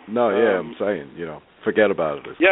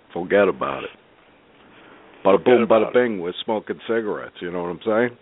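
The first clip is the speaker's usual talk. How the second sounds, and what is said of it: Put-on Brooklyn accent. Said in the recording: “utilize my Brooklyn accent”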